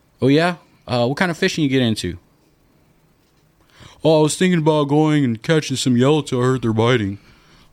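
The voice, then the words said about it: Voice of a typical customer. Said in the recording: “is that how the typical customer sounds? Just because you did that voice.”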